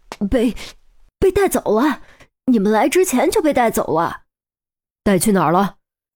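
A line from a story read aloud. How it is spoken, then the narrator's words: Trembling voice. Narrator (Chinese): 黄天福颤声道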